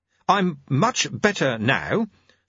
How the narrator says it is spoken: said Jeremy stiffly

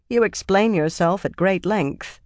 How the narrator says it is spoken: she said dryly

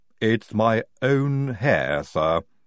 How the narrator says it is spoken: said Igorina

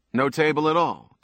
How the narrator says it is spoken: Jason said

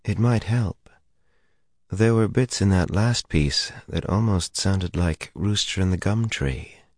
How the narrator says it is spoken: murmured

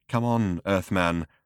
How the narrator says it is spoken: said Slutty Bartfast nervously

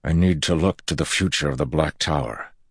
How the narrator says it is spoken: Loghain said

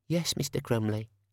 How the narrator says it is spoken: said the cashier meekly

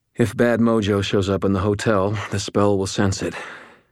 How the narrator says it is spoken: panted

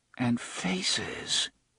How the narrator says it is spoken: he muttered

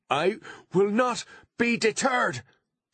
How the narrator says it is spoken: shouted Artemis, finding that he could shout inside the mind screen

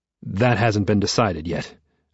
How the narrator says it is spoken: I say evenly

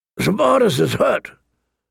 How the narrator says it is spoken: Sir Roderick said, his voice grave

